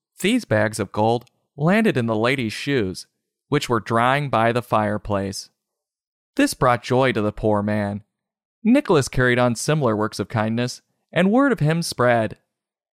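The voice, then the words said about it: Mom-like storytelling voice. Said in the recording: “That's my best mom voice telling the story”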